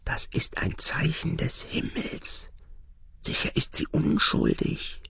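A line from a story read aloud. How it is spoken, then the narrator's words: Frightened whispering. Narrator (German): erschrocken einige flüsterten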